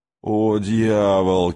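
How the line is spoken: Loud laughter. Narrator (Russian): Кей захохотал

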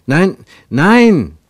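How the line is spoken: Calling out. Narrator (German): rief Ernst

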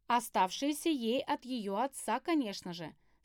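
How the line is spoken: Calm reply. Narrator (Russian): спокойно ответила я

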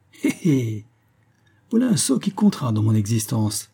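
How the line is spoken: Sneering laugh. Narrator (French): ricana M

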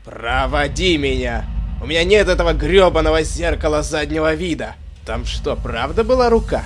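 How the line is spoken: Shout. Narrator (Russian): Крикнул капитан Шапира

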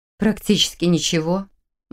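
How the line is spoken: Gloomy reply. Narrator (Russian): мрачно ответила она

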